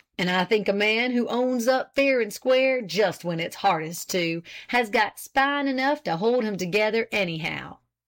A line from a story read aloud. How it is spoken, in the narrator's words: Hopkins declare in his big, hearty voice